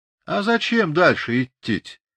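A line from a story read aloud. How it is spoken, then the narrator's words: Lazy question, sickly meek Cossack. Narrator (Russian): лениво спросил болезненный и смирный казачок Ильин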